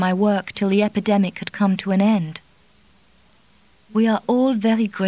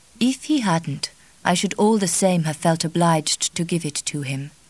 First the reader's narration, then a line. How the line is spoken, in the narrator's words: said the Mother Superior gently